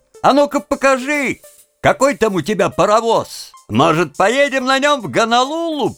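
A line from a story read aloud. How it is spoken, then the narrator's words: Mocking laughing shout. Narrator (Russian): Они хохотали над его ответом, и один из них крикнул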